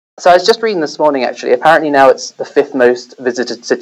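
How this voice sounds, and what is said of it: British accent. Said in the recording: “By my accent, you might have picked that up ... I'm originally British”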